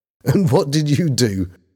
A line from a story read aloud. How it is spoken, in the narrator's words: Bobby said, laughing